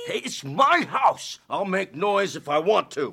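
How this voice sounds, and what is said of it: Loud, drunken voice. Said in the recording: “You're drunk. ... Lower your voice.”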